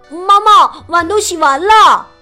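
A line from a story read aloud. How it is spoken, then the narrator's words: Hurried call. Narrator (Chinese): 富兰克林赶紧跑进屋，他对妈妈喊道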